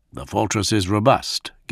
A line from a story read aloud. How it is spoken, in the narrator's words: Gilliman went on, a little stiffly